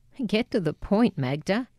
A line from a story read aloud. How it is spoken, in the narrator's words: chuckled